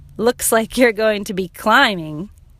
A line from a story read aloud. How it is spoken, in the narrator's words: They laughed and said